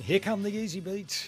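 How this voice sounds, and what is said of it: Radio disc jockey style voice. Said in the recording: “You sound like a disc jockey then.”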